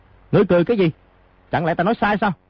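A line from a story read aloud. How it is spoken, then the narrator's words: Angry. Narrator (Vietnamese): lão lục tức giận nói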